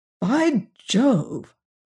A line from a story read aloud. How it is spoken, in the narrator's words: cried the doctor